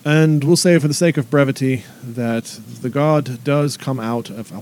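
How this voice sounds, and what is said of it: Put-on character accent. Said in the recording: “Why am I still using this accent?”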